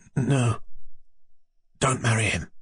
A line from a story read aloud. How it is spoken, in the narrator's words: he whispered at last, and breathed painfully